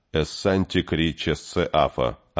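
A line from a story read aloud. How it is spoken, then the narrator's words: Plain. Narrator (Russian): ответил Кей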